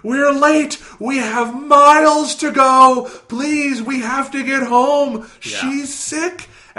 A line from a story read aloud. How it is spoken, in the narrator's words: this older woman and she is just shouting hysterically at Bobby